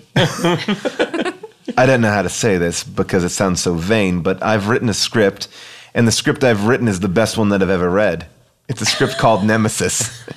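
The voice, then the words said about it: Breathy British accent. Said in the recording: “British accent ... Breathy.”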